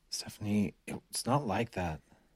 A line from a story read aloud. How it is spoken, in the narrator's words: Chris grumbled